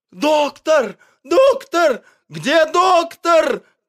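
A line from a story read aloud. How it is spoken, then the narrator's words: Animals shouting. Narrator (Russian): кричали на улице звери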